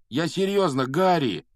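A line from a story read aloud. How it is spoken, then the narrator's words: Pleading. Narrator (Russian): взмолился Рон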